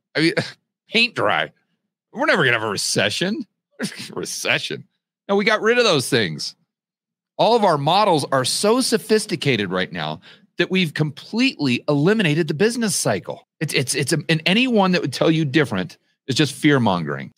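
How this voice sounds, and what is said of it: Sarcastic imitation of another person's voice. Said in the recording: “This is them speaking, obviously, not George Gammon. I'm doing my best impression of Janet Yellen ... you get all my sarcasm”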